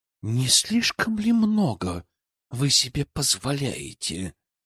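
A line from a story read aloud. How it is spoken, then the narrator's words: Through gritted teeth. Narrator (Russian): процедила Елизавета Загорская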